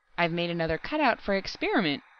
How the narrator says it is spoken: exclaimed Harper

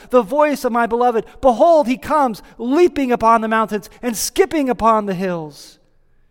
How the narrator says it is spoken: we hear her exclaiming

